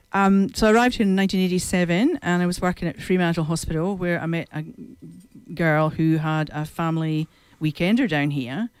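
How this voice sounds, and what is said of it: Non-local foreign accent. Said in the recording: “by my accent, you can tell I wasn't born here. So I'm a bit of a blow-in from far, far away.”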